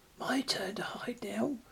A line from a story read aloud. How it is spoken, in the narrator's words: the whisper said